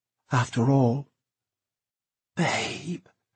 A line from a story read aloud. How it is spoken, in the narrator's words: he whispered